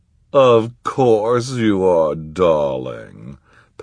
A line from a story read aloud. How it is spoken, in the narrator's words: purred